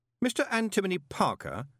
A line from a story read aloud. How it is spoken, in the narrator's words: said Moist urgently